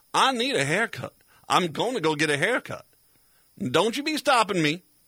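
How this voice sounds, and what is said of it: Put-on Southern white woman accent. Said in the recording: “My southern white woman accent is not nearly as good as I thought it was.”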